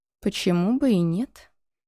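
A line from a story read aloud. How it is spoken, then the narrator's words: Sudden agreement. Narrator (Russian): вдруг согласился он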